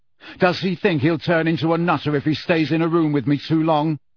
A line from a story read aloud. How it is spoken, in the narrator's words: asked Harry loudly